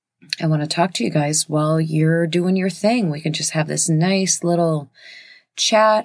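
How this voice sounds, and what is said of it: Rough, raspy morning voice. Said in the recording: “This is my morning voice. This is about as good as it's going to get... I sound like a 3-pack-a-day smoker?”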